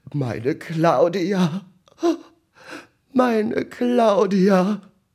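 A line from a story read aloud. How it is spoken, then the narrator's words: Sniffling, wailing lament. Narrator (German): zwischen Schniefen, Schneuzen und Jammern zu vernehmen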